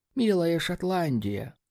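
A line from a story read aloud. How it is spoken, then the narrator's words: Quiet mutter to himself. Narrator (Russian): Мистер Рамзи тихонько произнес себе под нос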